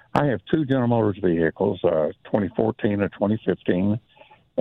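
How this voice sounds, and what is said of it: Polished radio-announcer voice. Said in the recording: “Boy, you have a radio voice.”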